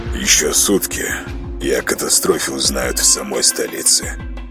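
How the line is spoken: Gloomy statement. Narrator (Russian): мрачно констатировал полковник

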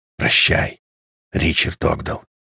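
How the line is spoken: Quiet cleric. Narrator (Russian): тихо произнес клирик

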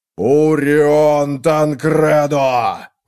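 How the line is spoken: Howl. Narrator (Russian): взвыл один из 1000 сынов

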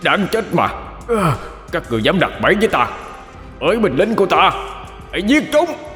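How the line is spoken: Anguished wild roar. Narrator (Vietnamese): Hắn đau đớn gào lên như một con thú hoang

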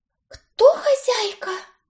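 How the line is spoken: Frightened whisper. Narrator (Russian): испуганно прошептала Дороти

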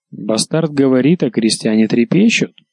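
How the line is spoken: Sharp, cold tone. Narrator (Russian): сказал оружейных дел мастер резким холодным тоном

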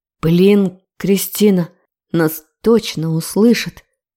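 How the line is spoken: Growling into ear. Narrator (Russian): рычал он мне на ухо

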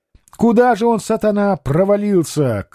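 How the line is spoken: Shout. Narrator (Russian): крикнул он

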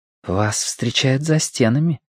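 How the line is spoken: Whispered. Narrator (Russian): прошептала Вэйсун

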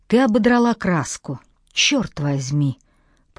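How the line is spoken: Hissed. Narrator (Russian): прошипел он наконец

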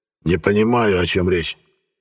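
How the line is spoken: Mumbled. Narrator (Russian): пробормотал Лонгман

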